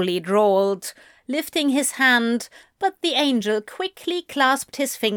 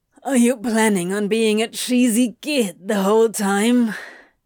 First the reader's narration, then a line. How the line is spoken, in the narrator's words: He groaned